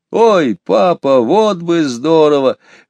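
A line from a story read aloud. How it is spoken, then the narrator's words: Excited exclamation. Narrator (Russian): воскликнул Петя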